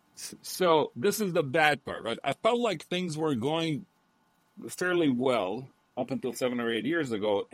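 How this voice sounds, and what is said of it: Foreign-accented English. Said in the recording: “my accent when I speak”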